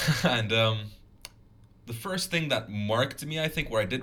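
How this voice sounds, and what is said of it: Usual voice. Nothing is said of it.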